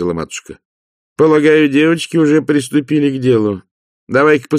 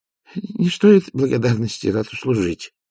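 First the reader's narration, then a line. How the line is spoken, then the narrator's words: Mutter. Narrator (Russian): пробормотал Овс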